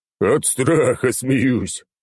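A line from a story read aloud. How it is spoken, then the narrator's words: Forced out, laughing. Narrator (Russian): выдавил из себя Черномор и продолжил хохотать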